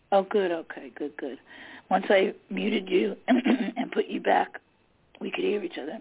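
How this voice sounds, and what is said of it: Slightly hoarse voice. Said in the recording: “my voice is going ... my voice is a little hoarse this evening”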